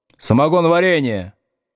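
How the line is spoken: Shout. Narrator (Russian): крикнул с первой парты Старков

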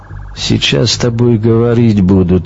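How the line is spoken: Said with heavy accent. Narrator (Russian): сказал с сильным акцентом

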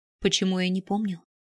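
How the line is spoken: Whisper. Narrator (Russian): прошептал он

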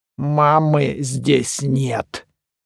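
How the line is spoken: Eerie distorted mother's voice. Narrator (Russian): Жутким, испорченным, но, несомненно, маминым голосом произнесла ободранная кукла

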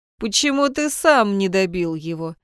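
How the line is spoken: Snide voice inside head. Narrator (Russian): Ехидно поинтересовался Алистер Воронов у него в голове

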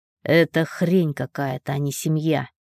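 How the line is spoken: Plain. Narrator (Russian): сказал Ник

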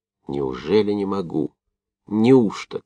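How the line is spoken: Delirious angry groan. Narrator (Russian): как в бреду спрашивал себя Овчинников и зло застонал сквозь зубы

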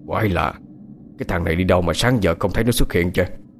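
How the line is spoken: Puzzled muttering. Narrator (Vietnamese): Ông Cảnh nhìn vợ, lẩm bẩm

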